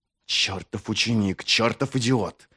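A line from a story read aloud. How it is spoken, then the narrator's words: Angry hiss. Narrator (Russian): прошипел он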